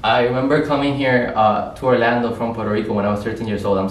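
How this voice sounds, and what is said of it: Non-native English accent. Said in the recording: “if you notice my accent”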